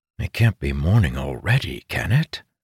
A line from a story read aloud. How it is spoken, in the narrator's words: Sighing